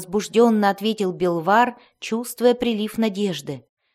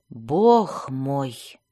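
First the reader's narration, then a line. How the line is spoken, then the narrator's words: Stunned frightened muttering. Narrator (Russian): пробормотал Белвар, не веря своим глазам, поскольку опустошительные действия этой одиночки воистину испугали глубинного гнома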